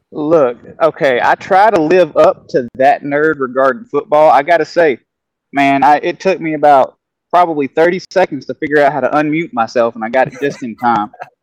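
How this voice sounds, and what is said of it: Homely regional accent. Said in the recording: “When you hear this accent, man, he just makes me feel at home. He makes me want to eat some cornbread, dude. When you hear his accent”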